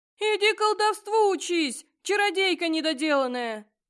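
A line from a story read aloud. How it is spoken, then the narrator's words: Howling demon. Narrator (Russian): Взвыл демон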